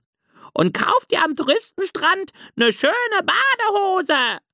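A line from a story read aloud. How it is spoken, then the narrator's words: Loud seagull call. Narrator (German): rief laut die Möwe Rose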